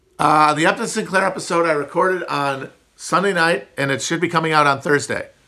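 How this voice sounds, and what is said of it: Nasal upper Midwest American accent. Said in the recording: “I have one of the least appealing American accents. The high nasal twang of the upper Midwest. Just everything pushed through the top of the nose.”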